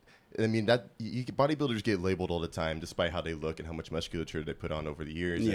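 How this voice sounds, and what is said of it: Usual voice. Nothing is said of it.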